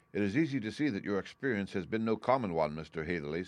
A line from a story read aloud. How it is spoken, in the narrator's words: said he